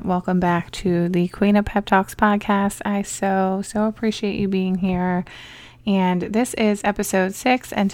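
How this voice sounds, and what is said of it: Slightly raspy voice. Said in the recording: “sorry if I sound a little bit raspy ... I may be coming down with a little bit of a cold, or honestly, it could just be pure exhaustion”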